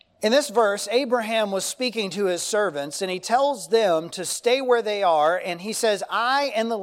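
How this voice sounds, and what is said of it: Usual voice. Nothing is said of it.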